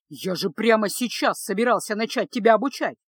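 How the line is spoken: Exclaiming. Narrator (Russian): воскликнул маг

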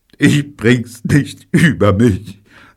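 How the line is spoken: Sobbing. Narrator (German): sagte er schluchzend

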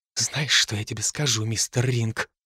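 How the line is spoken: Nurse whispering, trailing off. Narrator (Russian): прошептала медсестра и смолкла

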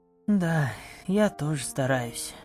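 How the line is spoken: Sighing. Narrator (Russian): вздохнула я

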